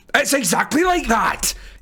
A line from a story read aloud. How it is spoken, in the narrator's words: yells at me